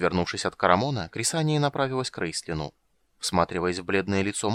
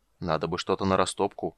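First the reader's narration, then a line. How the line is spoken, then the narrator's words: Giant's muttering. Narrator (Russian): бормотание исполина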